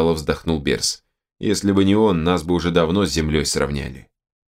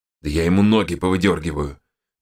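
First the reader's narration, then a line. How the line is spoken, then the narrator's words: Angry growl. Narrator (Russian): зарычал Кейн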